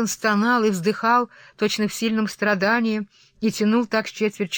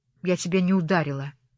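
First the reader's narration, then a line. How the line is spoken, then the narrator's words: Muttered. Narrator (Russian): пробормотала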